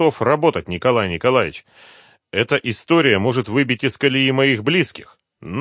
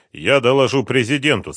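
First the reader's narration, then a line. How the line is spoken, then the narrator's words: Plain. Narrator (Russian): сказал премьер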